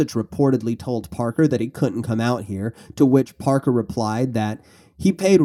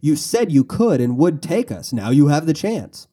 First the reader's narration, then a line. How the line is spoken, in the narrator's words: Parker taunted him by saying